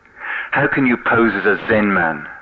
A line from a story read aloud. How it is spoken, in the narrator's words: Hoen said angrily